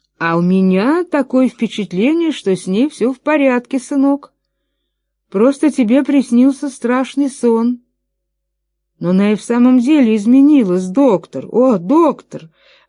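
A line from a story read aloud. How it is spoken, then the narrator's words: Exclaiming. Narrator (Russian): воскликнул Чарльз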